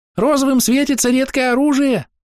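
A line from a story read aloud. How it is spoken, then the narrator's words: Squeaky voice in ear. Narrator (Russian): пискнул на ухо сверчок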